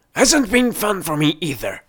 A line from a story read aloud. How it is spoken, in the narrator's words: gasped with a forced grin